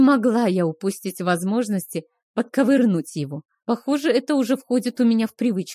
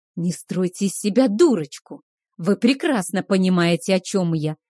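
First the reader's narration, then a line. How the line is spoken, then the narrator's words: Hiss. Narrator (Russian): прошипел Кейхар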